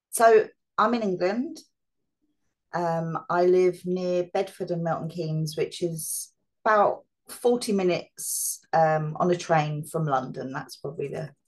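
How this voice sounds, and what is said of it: English accent. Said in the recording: “So I noticed an accent.”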